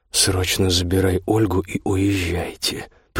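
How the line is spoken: Words through gritted teeth. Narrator (Russian): процедил он

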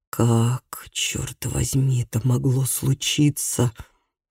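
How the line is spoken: Whisper. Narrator (Russian): прошептал

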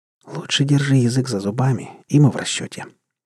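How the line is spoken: Quiet advice. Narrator (Russian): также тихо посоветовала Кира

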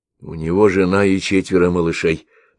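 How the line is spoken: Plain. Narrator (Russian): ответил Ваил

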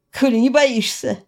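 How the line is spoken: Snorted. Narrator (Russian): фыркнула я

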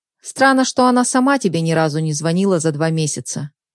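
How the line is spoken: Skeptical snort, young man. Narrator (Russian): хмыкнул молодой

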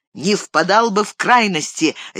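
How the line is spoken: Sharp reply. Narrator (Russian): резко ответил правитель

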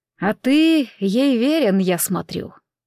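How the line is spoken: Slow. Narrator (Russian): медленно произнес он

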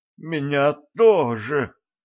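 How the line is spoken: Moaning. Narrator (Russian): простонал вампир

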